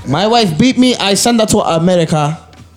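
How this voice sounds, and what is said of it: Put-on foreign accent. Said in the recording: “Is that a good accent or are we getting canceled? ... That might be a canceled accent. ... I don't know who's accent.”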